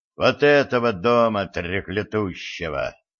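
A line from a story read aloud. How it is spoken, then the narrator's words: Growling. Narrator (Russian): прорычал Владислав Васильевич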